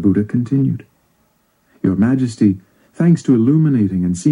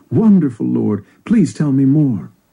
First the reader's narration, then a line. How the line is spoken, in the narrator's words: The king exclaimed